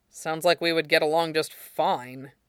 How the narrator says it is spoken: Aizawa said dryly

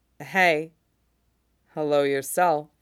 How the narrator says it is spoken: Mace murmurs

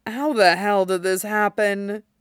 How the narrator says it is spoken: He muttered to himself, forlorn

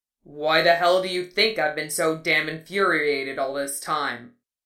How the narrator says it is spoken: He howled, fit to break the sky with the sound

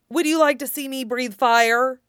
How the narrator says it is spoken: Fenris snorted

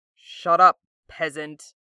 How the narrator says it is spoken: Zuko grunts, and winces, as if something's just hurt him

